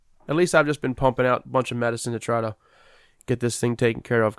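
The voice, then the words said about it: Nasal, congested voice. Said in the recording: “I sound nasally on here, it's because I'm still on the tail end of this cold ... I've just been clogged up ... Not when you sound like this.”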